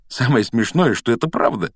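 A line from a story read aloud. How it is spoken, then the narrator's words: Giggling. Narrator (Russian): хихикнул Гарри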